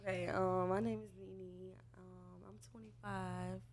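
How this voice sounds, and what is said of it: Whispering. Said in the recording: “why you whispering? Why you whispering?”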